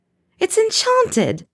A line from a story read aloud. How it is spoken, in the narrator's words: Tonks gasps, doubled over in laughter